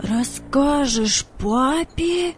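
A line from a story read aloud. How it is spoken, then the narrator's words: Incredulous exclamation. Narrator (Russian): воскликнул Владик, не поверив своим ушам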